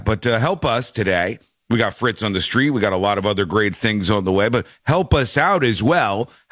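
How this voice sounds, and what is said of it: Weak voice, sore throat. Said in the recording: “Throat's a little sore ... my voice is a little bit weaker than it's supposed to be”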